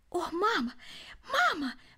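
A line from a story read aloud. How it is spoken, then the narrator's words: Exclaiming. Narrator (Russian): воскликнул он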